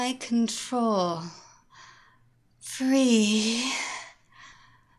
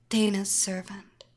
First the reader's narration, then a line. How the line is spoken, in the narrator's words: whispered